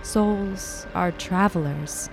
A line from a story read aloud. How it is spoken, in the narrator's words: she murmured